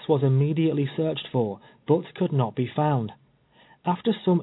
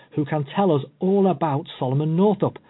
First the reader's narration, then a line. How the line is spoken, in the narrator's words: exclaimed Waddill